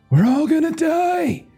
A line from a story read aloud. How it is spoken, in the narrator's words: You hear about 100 voices, not quite as baritone as the whale, and they all scream out in the same chorus